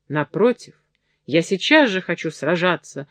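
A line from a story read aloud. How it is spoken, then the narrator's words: Exclaimed. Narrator (Russian): воскликнул наш герой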